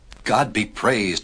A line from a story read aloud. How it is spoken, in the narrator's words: cried Noah